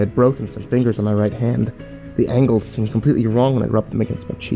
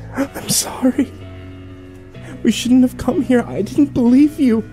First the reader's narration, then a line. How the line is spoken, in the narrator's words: she cried in quick, successive breaths